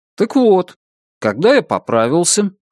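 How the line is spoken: Calm. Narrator (Russian): спокойно произнес Брезыч, словно он и не прерывал своего рассказа

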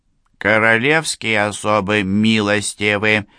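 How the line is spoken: Indifferent voice. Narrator (Russian): заметил де Бретель тем же равнодушным голосом

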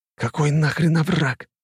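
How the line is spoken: Hissed. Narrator (Russian): прошипел Нарышкин

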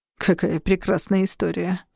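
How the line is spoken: Sardonic snort. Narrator (Russian): хмыкнул Шон

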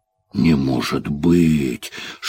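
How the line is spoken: Loud sigh, groan. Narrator (Russian): шумно вздохнув, Мартин Шево в голос застонал

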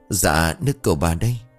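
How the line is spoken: Trembling, respectful. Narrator (Vietnamese): giọng nói run rẩy thể hiện sự kính cẩn

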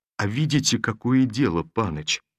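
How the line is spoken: Unusually soft reply. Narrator (Russian): ответил Ермола необыкновенно мягко

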